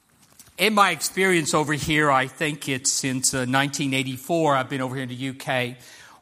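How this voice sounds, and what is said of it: American accent. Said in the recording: “you can't miss it very much because of my accent, that I am American”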